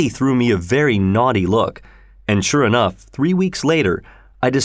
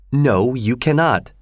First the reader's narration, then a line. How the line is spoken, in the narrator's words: replied firmly